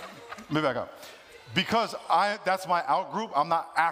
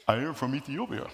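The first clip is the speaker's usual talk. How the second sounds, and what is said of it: Put-on generic African accent. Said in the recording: “I only have one accent for Africa ... my African accent is”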